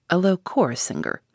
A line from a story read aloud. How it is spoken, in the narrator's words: he mutters to himself